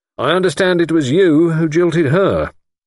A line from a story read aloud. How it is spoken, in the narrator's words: Lord Whitfield said stiffly